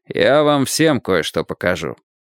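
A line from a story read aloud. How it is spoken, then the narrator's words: Gloomy mutter. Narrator (Russian): мрачно пробурчал Мейсон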